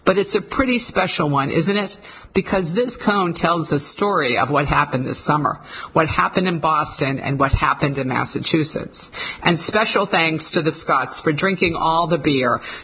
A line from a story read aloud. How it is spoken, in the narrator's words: added to the laughter